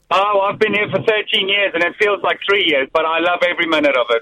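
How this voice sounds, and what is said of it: South African accent, slight twang. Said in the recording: “I can detect a twang ... I'm from Cape Town, South Africa.”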